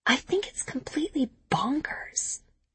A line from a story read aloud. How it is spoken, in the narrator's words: she whispers back